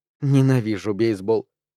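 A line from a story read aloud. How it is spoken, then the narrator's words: Muttering. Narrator (Russian): пробормотала Саша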